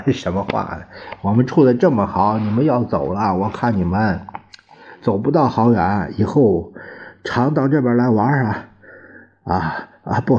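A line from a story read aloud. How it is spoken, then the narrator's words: Laughing. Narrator (Chinese): 他笑着说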